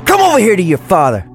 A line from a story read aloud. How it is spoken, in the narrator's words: Johnny screams like a madman, red-faced and still high on the adrenaline